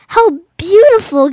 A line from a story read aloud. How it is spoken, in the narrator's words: gasped Little Tiger